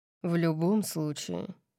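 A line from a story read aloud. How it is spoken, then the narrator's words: Grumbling. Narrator (Russian): проворчал он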